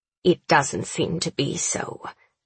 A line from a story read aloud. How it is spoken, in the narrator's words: she hisses